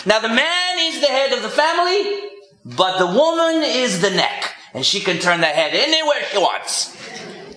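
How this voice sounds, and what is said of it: Deliberately poor put-on Greek accent. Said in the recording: “I'm going to do a terrible Greek accent.”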